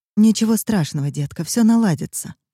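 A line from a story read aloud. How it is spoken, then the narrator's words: Gentle, affectionate. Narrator (Russian): ласково повторяла я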